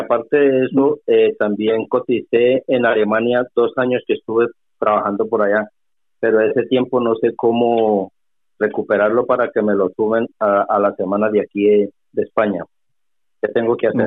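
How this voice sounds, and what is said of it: Colombian Spanish accent. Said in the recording (Spanish): “hispano-colombiano, por tu acento infiero”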